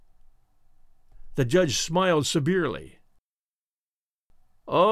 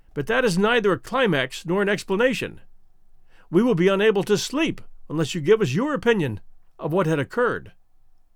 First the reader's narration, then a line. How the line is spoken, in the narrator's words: One of them exclaimed